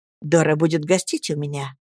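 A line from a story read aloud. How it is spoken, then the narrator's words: Quiet. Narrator (Russian): тихо начала Джулия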